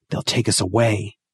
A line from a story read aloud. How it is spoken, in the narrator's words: whispered